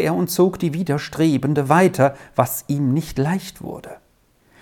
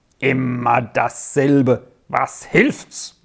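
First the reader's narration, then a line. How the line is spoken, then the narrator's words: Man's gruff mutter. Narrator (German): brummte der Mann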